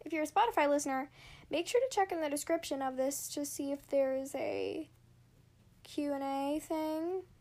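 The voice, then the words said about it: Voice sounds sick. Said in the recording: “I sound sick for some reason ... I sound sick. I'm not.”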